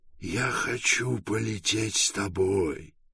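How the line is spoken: Hoarse with emotion. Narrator (Russian): сказал Пилород голосом, внезапно охрипшим от волнения

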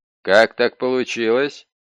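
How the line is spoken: Demanding tone. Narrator (Russian): Детектив требовательным тоном спросил

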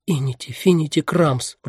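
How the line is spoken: Whisper. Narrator (Russian): прошептала она

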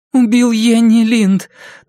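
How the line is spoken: Trembling voice, asking. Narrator (Russian): дрожащим голосом спросила Памела

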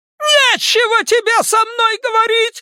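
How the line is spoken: Shrieking. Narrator (Russian): завизжала миссис Касбрэк

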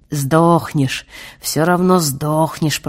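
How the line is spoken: Hissing blind man. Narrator (Russian): прошипел слепой

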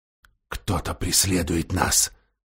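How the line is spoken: Dwarf, low voice. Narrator (Russian): сказал гном вполголоса

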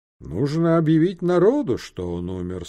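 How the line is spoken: Plain. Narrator (Russian): сказал он

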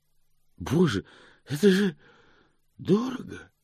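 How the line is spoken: Breathless exclamation. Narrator (Russian): выдохнул он

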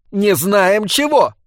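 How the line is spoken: Woman shouting. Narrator (Russian): кричала ему в ответ любовница

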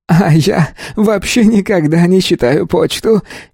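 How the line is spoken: Giggling. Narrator (Russian): хихикнул Стин

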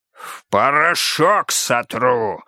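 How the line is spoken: Growl. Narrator (Russian): рычал Никита Карпов

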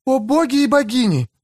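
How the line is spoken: Sudden exclamation. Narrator (Russian): неожиданно воскликнула Фрейя

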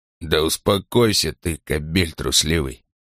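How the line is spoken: Muttering. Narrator (Russian): бормотал Ланкао

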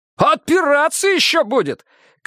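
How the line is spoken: Shout. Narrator (Russian): крикнул Леха

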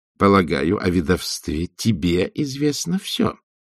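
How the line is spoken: Plain. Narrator (Russian): сказала матушка Буревей

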